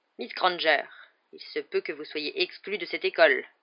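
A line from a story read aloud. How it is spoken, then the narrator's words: Curt retort. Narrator (French): répliqua sèchement Rogue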